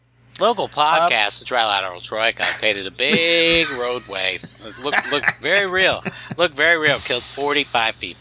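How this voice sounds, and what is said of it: Sports newscaster voice, rally-like cadence. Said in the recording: “newscaster voice ... sounds like you're saying it like a Trump voice at a rally ... my sports like newscaster voice”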